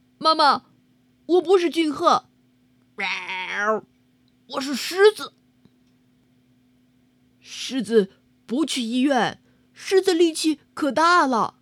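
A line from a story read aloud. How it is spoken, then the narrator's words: Loud, muffled under blanket. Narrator (Chinese): 君鹤用被子严严实实的把自己的脸给捂了起来，然后大声的说道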